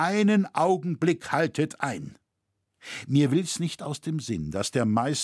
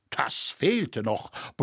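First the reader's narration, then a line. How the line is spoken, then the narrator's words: Grumbling. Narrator (German): brummte Loi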